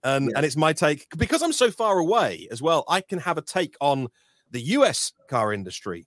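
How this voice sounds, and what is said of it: British accent. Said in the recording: “this Brit talking about EVs ... we're enamored with your accent”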